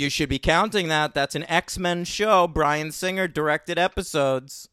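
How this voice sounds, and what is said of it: Usual voice. Nothing is said of it.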